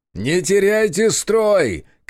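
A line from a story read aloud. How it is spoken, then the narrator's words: Shouting. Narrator (Russian): кричал я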